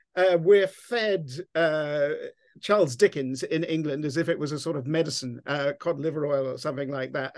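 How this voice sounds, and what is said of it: English accent. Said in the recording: “I'm English, as you can tell from my Texas accent”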